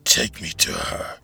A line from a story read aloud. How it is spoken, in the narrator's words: She growled at Ransford